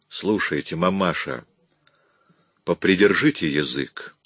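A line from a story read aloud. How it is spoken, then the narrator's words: Dry police tone. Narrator (Russian): произнес Лепски сухим тоном полицейского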